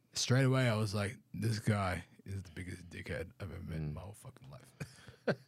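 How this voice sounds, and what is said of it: Australian accent. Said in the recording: “I can't understand you with your Australian accent.”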